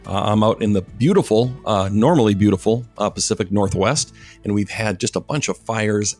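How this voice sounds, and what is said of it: Slightly scratchy, hoarse voice. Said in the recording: “my voice sounds a little scratchy today, I'm going to blame the wildfires”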